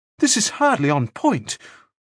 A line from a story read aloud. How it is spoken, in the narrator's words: Frost said desperately